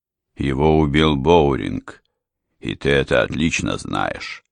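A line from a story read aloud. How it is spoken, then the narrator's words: Calm. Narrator (Russian): спокойно сказал аристократ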